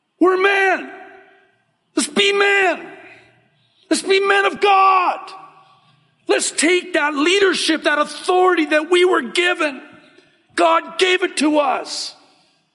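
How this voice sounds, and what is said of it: Loud yelling preacher delivery. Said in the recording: “I'm sorry if I'm yelling.”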